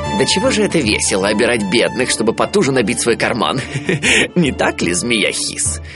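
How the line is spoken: Giggling. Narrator (Russian): хихикнул принц

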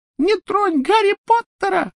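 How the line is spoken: Squeaked. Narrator (Russian): пропищал

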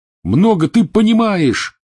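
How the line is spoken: Yelling. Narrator (Russian): вопил Рон

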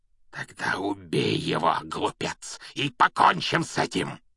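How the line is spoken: Hoarse shout. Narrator (Russian): хрипло выкрикнул Волан-де-Морт

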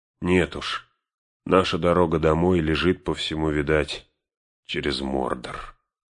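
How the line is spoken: Muffled, after a pause. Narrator (Russian): после паузы глухо выговорил он

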